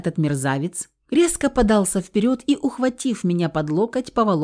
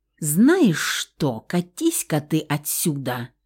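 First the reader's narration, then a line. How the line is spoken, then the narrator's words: Menacing. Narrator (Russian): грозно начала я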